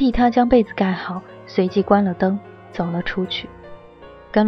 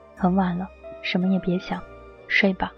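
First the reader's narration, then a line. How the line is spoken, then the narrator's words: Soft whisper. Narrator (Chinese): 轻声的在她耳边说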